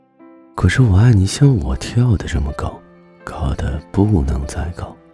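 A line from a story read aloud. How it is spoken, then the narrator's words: Laughing. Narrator (Chinese): 大兔子笑着说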